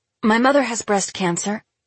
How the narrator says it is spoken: Celeste blurts out

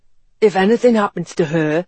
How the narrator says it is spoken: he retorted hoarsely

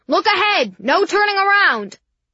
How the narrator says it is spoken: the police started shouting

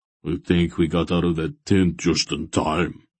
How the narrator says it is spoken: Barak muttered

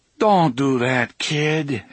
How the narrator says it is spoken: Eddie said feebly

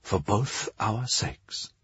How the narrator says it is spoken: Talia said under her breath

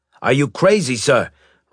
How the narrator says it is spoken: Riker shouted

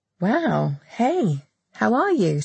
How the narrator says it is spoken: Sam said, trying to keep her voice cheerful

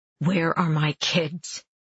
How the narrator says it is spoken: breathing hard, and say in the harsh, growling voice I've developed

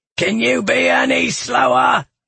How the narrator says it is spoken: Galifon roared

